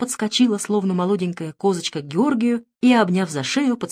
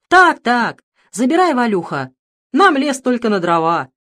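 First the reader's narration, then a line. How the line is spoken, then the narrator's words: Cheerful tipsy men shouting. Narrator (Russian): закричали подобревшие, чуть захмелевшие мужики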